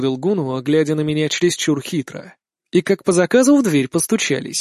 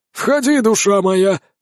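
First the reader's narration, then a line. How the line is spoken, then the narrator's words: Exclaiming. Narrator (Russian): воскликнул маг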